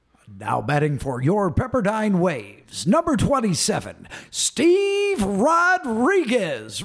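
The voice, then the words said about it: Baseball announcer radio voice. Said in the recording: “you got to do it in your radio voice ... You have that great voice ... you were a Pepperdine Waves baseball announcer”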